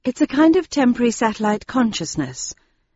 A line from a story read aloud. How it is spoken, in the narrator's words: I said in a soft voice